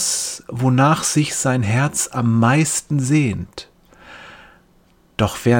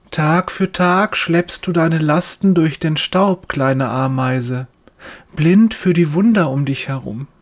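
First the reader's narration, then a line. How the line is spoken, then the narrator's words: Gentle soft voice. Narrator (German): sagt er mit sanfter Stimme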